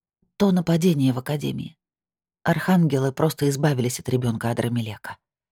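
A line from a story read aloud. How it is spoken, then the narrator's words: Flat colorless explanation. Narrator (Russian): пояснила бесцветным голосом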